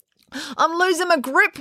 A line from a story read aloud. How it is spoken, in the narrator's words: wailed Finn